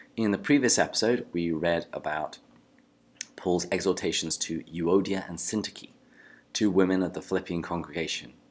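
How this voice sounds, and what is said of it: English accent. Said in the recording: “Theology with an English Accent.”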